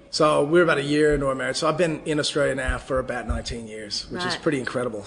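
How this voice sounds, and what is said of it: American accent with Australian touches. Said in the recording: “my accent's sort of in this middle zone ... they think I sound Australian ... you sound American up to a point, and then you throw in one word or one sentence that's really Australian”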